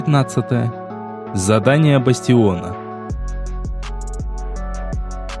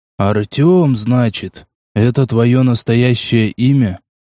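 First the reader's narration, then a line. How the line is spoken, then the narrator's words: Weary sigh. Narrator (Russian): Устало выдохнул порядком потрепанный агроном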